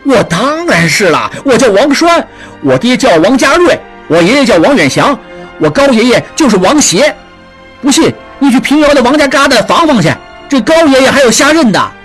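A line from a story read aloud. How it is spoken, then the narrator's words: Beggar, flustered and heated. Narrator (Chinese): 叫花子急赤白脸地说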